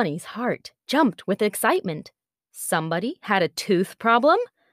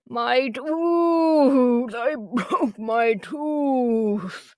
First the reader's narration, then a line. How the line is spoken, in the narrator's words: the lion moaned